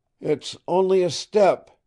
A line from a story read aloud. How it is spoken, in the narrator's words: shouted